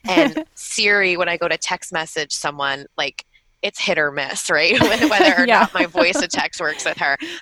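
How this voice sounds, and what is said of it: Long Island accent, different vowels. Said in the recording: “my accent's not terrible, but I'm from Long Island, so sometimes I get my vowels a little, you know, a little different”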